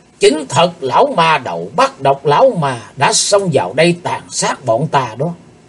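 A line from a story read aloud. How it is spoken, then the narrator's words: Hateful hiss. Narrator (Vietnamese): Tên cao thủ như rít giọng căm hận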